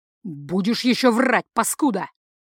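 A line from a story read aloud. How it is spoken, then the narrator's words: Barked in face. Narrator (Russian): рявкнул оборотень ему в лицо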